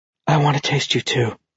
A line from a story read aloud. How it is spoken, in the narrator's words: she whispered